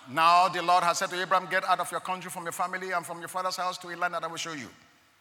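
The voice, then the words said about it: Reading very fast. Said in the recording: “I said that so quickly.”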